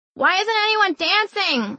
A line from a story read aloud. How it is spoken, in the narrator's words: I shouted